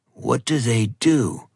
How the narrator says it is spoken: Ronan growled

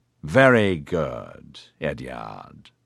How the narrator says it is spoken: Che drawled

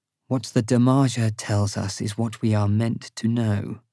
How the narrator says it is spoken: the Sharon Ting Ka says in a low, dangerous voice

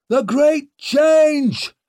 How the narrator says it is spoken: shouting

